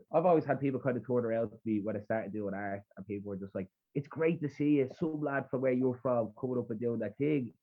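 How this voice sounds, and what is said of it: Rough Dublin Irish accent. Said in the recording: “people comment on my accent a lot. I have a really rough Dublin accent, ... it's dirty Dublin”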